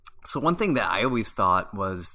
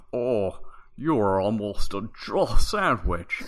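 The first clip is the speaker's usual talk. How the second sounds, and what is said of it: Imitates a game character's voice. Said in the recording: “That was quite the impersonation ... I've been working on my Barry for quite some time.”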